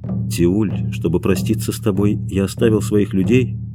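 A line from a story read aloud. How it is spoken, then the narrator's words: Whisper. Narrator (Russian): прошептал Куаутемок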